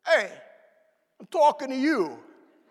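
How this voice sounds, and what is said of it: Put-on Brooklyn accent. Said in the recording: “in the Brooklyn accent”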